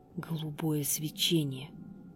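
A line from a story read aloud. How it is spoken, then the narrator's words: Old woman, low voice. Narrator (Russian): вполголоса произнесла старуха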